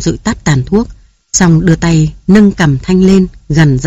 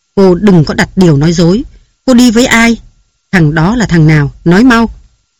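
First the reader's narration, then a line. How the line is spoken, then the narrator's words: Harsh, stressed voice. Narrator (Vietnamese): Nam gằn giọng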